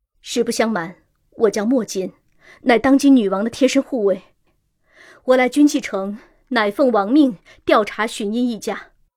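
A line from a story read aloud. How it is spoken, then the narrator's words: Stern, deep voice. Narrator (Chinese): 一改往日的和善，沉声说道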